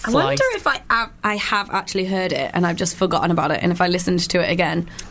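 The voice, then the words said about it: Husky, hoarse voice. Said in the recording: “My voice is gone ... I've got like a really husky voice today because I've got a sore throat”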